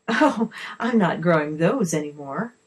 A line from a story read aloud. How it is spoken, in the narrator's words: the lady laughed